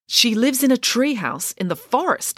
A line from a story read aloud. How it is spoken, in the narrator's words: exclaimed Loretta